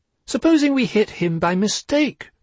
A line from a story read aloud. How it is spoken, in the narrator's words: said Piglet anxiously